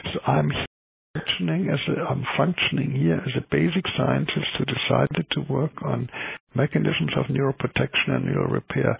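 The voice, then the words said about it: German accent. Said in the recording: “I'm an MD in the German system. Now I gave my nationality away, which is clear in my accent”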